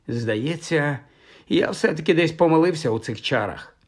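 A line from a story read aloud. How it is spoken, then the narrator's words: Sigh. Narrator (Ukrainian): зітхнув Майкл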